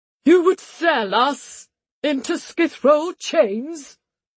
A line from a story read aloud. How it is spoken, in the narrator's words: Lord Mensis cried